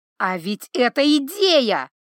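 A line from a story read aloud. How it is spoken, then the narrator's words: Exclaiming. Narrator (Russian): воскликнул он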